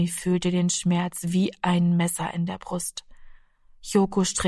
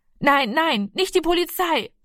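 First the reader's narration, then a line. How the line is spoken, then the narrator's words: Called out. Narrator (German): rief er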